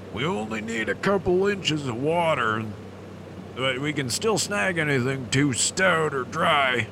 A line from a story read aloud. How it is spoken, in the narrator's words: Moe called out